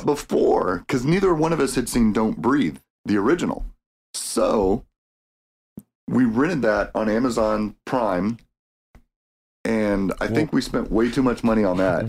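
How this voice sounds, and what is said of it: Slightly odd, allergy-affected voice. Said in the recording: “my accents or my dialect is a little weird today because of my allergy issues”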